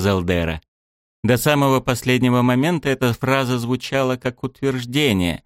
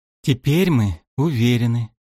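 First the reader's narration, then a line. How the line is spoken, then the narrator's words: Soft. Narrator (Russian): сказала Кальдера мягко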